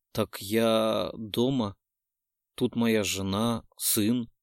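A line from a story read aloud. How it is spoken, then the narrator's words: Wretched man mumbling. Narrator (Russian): бормотал несчастный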